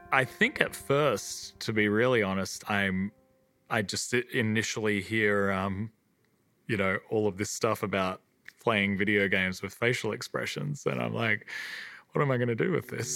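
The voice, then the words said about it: Australian accent. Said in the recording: “that Aussie accent”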